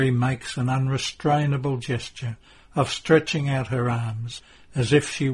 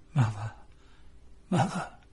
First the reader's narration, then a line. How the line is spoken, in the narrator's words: In his weakness, he whispers